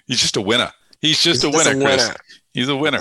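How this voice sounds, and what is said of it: Put-on Boston accent. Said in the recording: “the Boston accent there. A little New England just threw in there.”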